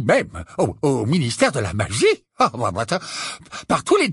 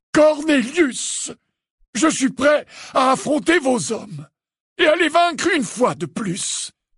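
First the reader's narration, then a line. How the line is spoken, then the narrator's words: Thundering. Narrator (French): tonna Dumbledore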